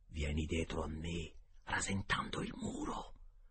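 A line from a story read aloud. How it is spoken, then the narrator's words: Whispered in ear. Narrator (Italian): mi sussurrò in un orecchio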